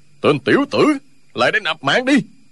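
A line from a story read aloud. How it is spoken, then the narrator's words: Furious roar. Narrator (Vietnamese): Không Tính càng lúc càng tức, gầm lên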